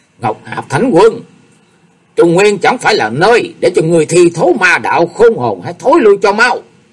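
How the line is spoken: Thundering roar. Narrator (Vietnamese): gầm vang lên bầu trời

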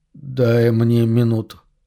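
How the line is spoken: Indistinct, echoing voice. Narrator (Russian): просит Джереми неясным голосом, отдающимся эхом от кафеля

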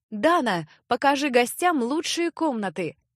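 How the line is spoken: Shouting server. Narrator (Russian): крикнул подавальщик

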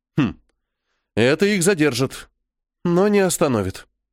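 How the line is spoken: Sighing. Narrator (Russian): вздохнула Милена

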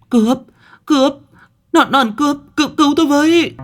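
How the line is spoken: Woman crying for help. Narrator (Vietnamese): Bỗng nhiên có tiếng người phụ nữ kêu lên

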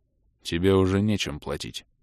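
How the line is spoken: Dull, bitterly disappointed answer. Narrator (Russian): глухо ответил Адрус, которого снова залила волна черного разочарования

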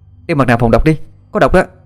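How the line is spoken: Shouting. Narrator (Vietnamese): Ân la lên

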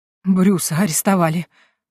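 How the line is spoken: Breathless, elderly duchess. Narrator (Russian): выдохнула вдовствующая герцогиня

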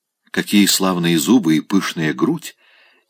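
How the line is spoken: Quiet question. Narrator (Russian): тихо спросил Райский бабушку

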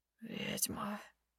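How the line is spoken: Hoarse, penetrating voice. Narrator (Russian): Хриплый голос пробирается до самого сердца

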